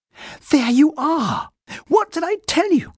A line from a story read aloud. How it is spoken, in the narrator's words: cried Judy